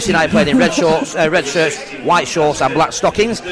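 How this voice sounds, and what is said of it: Usual voice. Nothing is said of it.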